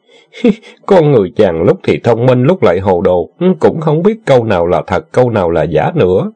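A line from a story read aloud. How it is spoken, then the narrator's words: Giggling. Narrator (Vietnamese): Tần Tiên Nhi khẽ che miệng cười khúc khích nói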